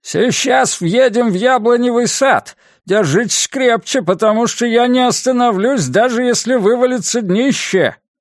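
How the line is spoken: Shout. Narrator (Russian): Сэм крикнул

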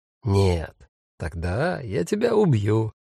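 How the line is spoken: Gentle, affectionate. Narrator (Russian): ласково сказал Фабиан Файх

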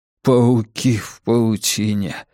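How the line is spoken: Muttering. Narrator (Russian): бормотал он

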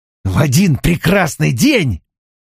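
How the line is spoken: Through gritted teeth. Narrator (Russian): процедил сквозь зубы О'Хара

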